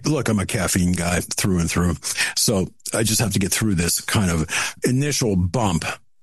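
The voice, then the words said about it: Raspy voice. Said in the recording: “if my voice sounds a little bit raspy right now. It is”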